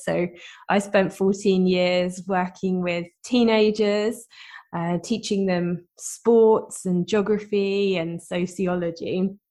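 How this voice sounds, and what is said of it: British accent. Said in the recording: “as you can probably tell from my accent, I'm from the UK”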